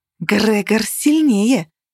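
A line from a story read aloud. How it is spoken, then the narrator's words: Hiss. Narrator (Russian): зашипела Каннель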